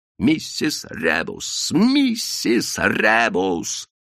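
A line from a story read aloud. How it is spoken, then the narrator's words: Hissing whisper. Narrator (Russian): свистящим шепотом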